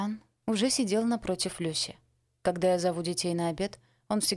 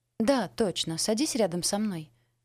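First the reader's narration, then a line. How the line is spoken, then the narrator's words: Exclaiming. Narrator (Russian): воскликнула Пола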